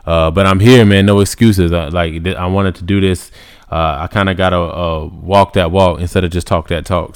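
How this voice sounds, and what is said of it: Tired, low-energy, druggy-sounding voice. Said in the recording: “my voice sounds a little bit druggy, if I don't have the same energy that I normally come with”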